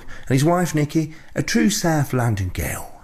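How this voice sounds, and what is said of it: Put-on South London accent. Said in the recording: “What do you think of my accent there? Is it all right?”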